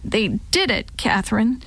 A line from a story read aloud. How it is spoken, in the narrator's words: said in a choked-up voice